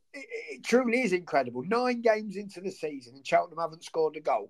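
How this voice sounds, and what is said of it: Croaky, hoarse voice. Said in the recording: “my voice sounds a bit croaky, it's because I've been shouting”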